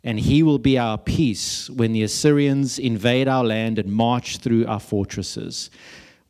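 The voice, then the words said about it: South African accent. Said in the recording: “That lovely South African accent”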